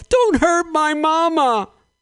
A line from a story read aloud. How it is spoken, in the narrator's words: yelled